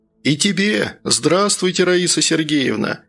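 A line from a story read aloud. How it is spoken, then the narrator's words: Joyful shout. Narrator (Russian): радостно выкрикнул Антон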